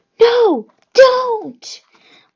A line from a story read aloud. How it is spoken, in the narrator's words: More rasping, the sound of tiny snakes right above my head